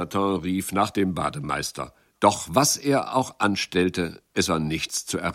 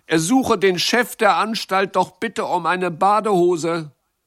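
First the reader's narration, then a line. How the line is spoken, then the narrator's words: Calling out. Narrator (German): rief Jacques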